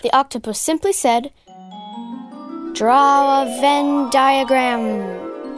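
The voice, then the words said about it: Weird dramatic character voice. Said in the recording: “what's with the weird voice?”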